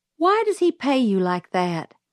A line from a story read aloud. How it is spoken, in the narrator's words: I asked